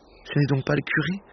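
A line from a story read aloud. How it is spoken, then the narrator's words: Murmur. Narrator (French): murmura-t-il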